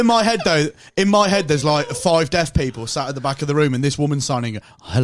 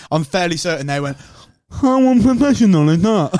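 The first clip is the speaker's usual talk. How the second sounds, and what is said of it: Imitates a deaf person's speech. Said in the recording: “Oh, he did the voice. ... a deaf person voice. ... he is only copying someone's voice.”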